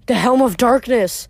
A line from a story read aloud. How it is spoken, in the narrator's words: Grover gasped